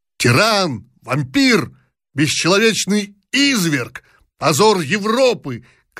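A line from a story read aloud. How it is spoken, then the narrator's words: Shouting guard. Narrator (Russian): кричал один из гвардейцев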